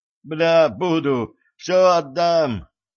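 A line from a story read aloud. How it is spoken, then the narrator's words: Hoarse yell. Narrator (Russian): хрипло заорал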